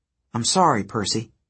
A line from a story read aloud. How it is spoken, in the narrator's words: Hazel said